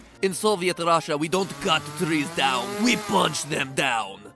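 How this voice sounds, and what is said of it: Put-on Russian accent. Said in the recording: “Best accent I've probably done on this show for years.”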